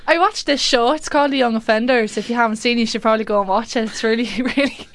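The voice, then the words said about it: Put-on Irish accent, done well. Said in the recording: “her favourite accent at the moment is Irish... That's a really good accent. That's really good.”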